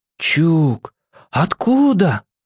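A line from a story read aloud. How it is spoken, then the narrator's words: Breathless exhale. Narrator (Russian): выдохнул Костик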